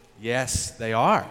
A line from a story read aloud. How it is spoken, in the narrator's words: the server calmly responded